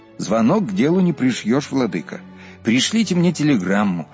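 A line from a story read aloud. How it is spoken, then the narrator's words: Plain. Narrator (Russian): ответил отец Алипий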